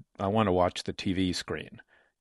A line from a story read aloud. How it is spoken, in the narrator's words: Quietly, this time, Loughner said